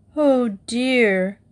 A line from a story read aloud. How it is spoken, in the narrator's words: groaned Judy